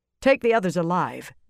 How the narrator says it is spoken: Birgitta snapped

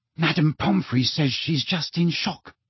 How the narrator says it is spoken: whispered Hermione

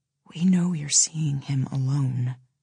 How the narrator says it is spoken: says to me in her light, penetrating whisper

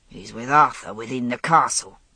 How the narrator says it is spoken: said Malia Grant sullenly

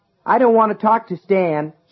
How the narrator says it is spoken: he yelled

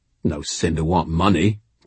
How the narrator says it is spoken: Binder said sullenly

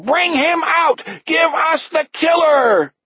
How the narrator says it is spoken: they are screaming

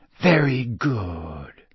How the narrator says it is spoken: said Voldemort softly

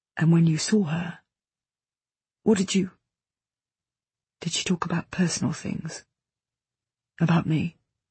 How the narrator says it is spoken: His voice was husky

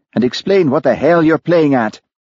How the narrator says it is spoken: snapped Hamish

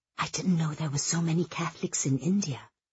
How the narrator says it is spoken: she whispered to him

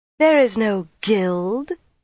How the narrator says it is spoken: Mistress Corley said coolly

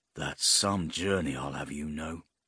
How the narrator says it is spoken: Chos snorted, commenting under his breath

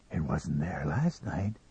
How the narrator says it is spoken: he whispered

